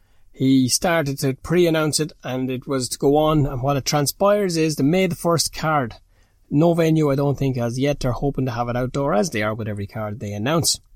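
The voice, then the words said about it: Speaker's own regional accent. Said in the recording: “for anybody not used to my accent”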